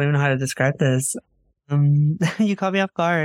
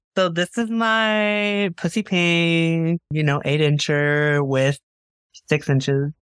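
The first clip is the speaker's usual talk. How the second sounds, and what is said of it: Sassy exaggerated voice. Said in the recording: “in your sassiest accent”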